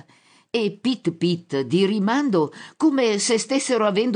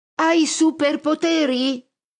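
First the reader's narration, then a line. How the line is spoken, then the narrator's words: Shouted. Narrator (Italian): grida all'uomo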